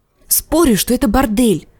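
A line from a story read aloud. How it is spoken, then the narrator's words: Whisper. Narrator (Russian): шепнула Арья Джендри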